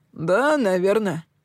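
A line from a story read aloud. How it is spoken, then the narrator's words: Snorting. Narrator (Russian): хмыкнул Сэм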